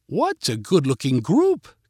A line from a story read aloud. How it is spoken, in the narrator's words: called Katie in her British accent